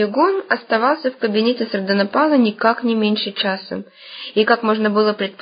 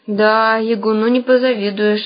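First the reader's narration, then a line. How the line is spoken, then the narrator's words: Sigh. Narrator (Russian): вздохнул Ванька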